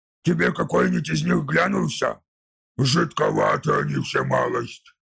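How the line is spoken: Grumbling. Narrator (Russian): пробурчал Уфтхек

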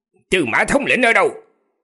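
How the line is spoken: Coughing, then barking. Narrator (Vietnamese): Gã ho khan vài tiếng rồi quát

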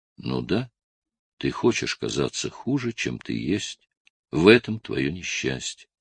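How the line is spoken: Sad whisper. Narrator (Russian): та шепчет печально

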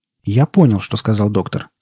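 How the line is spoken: Calm. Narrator (Russian): спокойно произнес Бениту

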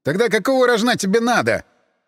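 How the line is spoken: Yelling. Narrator (Russian): Заорал я

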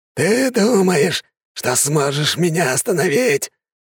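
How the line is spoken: Strange, altered voice. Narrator (Russian): не своим голосом сказал маг

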